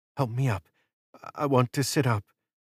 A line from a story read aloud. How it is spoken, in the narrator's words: She stammered